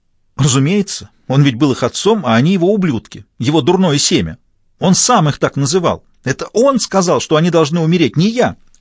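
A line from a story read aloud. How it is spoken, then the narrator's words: Full-voiced shouting. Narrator (Russian): Диана кричала уже в полный голос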